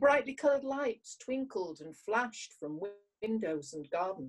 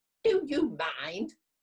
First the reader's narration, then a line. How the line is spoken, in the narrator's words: snapped a muffled voice